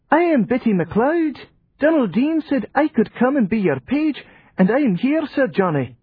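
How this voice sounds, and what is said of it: Piping child's voice, thick accent. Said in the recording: “His piping voice ... The accent was thick”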